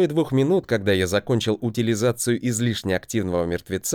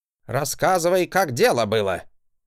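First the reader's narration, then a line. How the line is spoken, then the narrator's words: Angry bark. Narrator (Russian): Гаркнул он, втягивая раздувшимися в гневе ноздрями воздух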